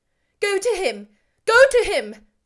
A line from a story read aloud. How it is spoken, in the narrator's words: cried Anne